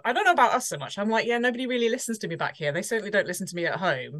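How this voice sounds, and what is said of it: British accent. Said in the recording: “everybody loves a British accent, don't they? ... lots of other people around the world seem to love my accent”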